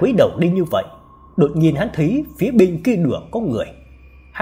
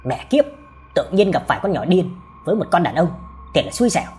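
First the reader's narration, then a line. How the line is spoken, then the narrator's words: Irritated muttered cursing. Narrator (Vietnamese): vẫn còn chưa hết bực tức mà lẩm bẩm chửi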